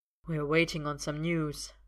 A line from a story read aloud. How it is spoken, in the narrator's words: Arthur says quietly